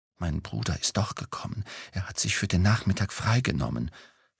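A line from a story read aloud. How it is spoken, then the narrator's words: Whispered. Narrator (German): flüsterte sie mir zu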